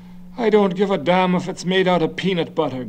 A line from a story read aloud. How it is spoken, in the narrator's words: Garvey said irritably